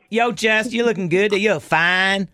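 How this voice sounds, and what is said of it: Imitated Texas drawl. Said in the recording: “You have to do it with the accent, you know, too. Should I do it with the accent next time?... I'm going to try using that Texas drawl.”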